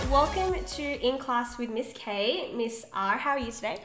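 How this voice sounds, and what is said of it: Nervous-sounding voice. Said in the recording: “I am nervous as well. You can probably hear it in my voice”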